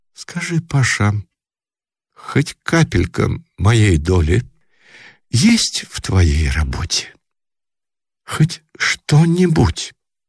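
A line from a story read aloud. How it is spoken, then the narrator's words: Timid question after pause. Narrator (Russian): Мария Петровна, тоже помолчав, вдруг спросила робко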